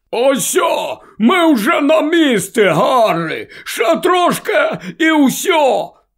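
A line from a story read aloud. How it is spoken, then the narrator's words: Shouted. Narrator (Ukrainian): крикнув Гегрід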